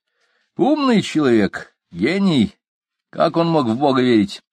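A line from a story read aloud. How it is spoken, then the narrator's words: Snorting. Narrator (Russian): Профессор фыркнул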